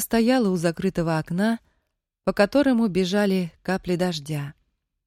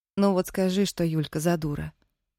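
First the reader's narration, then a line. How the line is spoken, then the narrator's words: Quiet question. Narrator (Russian): негромко спросила Дина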